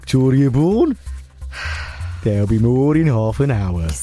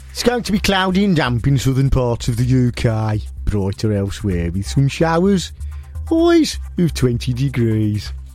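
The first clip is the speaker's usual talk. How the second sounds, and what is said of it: Weak attempt at Birmingham accent. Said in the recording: “Could you do it in a Birmingham accent? ... That wasn't very good.”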